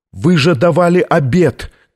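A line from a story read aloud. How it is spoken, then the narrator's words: Shouting in face. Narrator (Russian): кричал Камерарий в лицо папе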